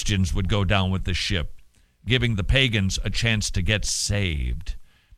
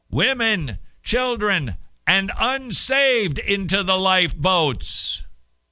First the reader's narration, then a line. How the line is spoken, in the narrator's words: Harper yelling